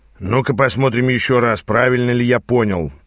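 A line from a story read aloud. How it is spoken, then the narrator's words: Grumbling mutter. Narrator (Russian): пробурчал Аас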